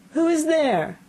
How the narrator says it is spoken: cried he

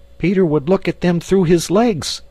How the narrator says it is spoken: Almost in the same breath they cried

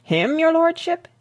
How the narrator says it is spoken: exclaimed Wilkins

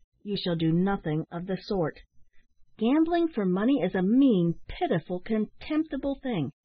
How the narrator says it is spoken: said Ned firmly and emphatically

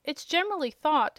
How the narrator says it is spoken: resumed, in an annoyed tone

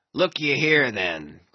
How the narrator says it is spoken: cried Ahab, passionately

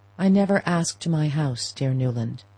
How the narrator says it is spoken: he said

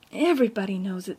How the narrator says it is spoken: said Ruby bitterly

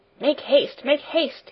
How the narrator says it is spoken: he cried in a hurried voice

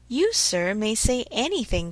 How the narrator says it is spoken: cried Mr

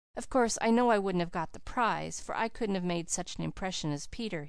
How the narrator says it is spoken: he said to us mournfully

